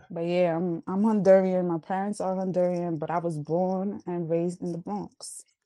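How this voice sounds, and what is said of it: New York accent. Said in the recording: “I like your accent. ... she sound so, like New York ... she sound like New York”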